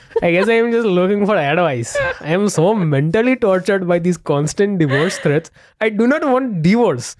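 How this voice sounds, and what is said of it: Put-on Indian accent. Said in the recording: “The Indian accent ... The real in- Indian.”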